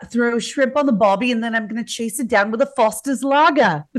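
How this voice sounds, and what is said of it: Put-on Australian accent, fairly good. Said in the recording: “I want you to do an Australian accent. ... That's pretty good.”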